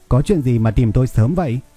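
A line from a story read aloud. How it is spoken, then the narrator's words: Smiling. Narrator (Vietnamese): Lâm Bội Bội mỉm cười nói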